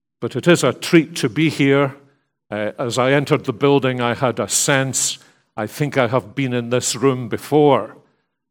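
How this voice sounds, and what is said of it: Accent not from North Dallas. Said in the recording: “an accent that is manifestly not from North Dallas”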